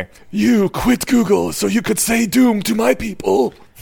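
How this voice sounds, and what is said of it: Old martial arts guru voice. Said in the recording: “your best godfather impression ... That was like old like Japanese martial arts guru ... that was Pai Mei”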